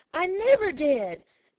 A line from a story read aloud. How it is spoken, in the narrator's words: exclaimed Peter indignantly